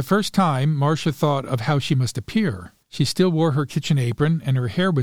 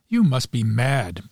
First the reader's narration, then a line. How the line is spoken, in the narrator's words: said sharply